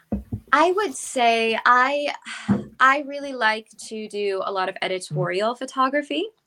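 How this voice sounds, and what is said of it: Slightly hoarse voice. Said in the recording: “I'm a little hoarse today as well from all the traveling.”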